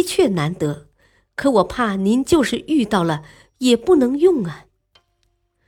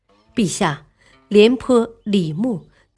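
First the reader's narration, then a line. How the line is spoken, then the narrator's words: Slight smile. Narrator (Chinese): 冯唐不觉微微一笑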